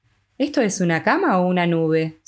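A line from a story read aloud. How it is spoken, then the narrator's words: Sigh. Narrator (Spanish): suspiró John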